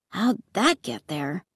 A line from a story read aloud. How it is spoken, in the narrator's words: He murmured